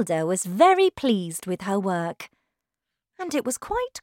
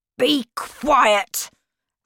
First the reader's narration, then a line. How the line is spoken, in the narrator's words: said angrily